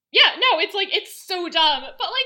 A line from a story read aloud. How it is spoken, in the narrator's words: I laughed a bit